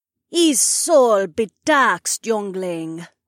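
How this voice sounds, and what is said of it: Offbeat calypso accent. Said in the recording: “An offbeat calypso accent”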